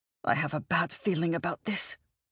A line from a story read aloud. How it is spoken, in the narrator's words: Val muttered